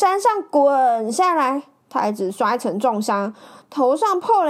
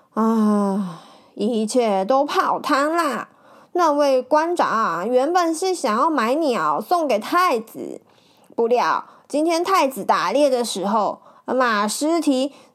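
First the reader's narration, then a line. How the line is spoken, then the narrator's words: Sighing. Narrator (Chinese): 林之阳叹了一口气说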